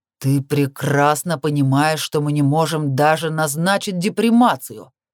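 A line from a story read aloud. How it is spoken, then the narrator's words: Growl. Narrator (Russian): прорычал он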